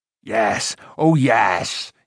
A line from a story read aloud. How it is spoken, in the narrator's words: cried